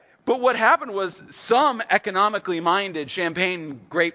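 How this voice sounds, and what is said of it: Usual voice. Nothing is said of it.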